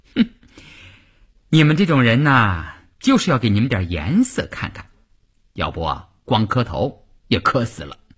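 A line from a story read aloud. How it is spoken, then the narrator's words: Mocking laugh. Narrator (Chinese): 乌云听了这话笑了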